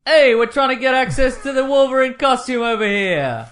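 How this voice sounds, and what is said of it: Put-on New York accent. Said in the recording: “New York style. ... I was hesitant to do the New York accent, but now I've got it real good.”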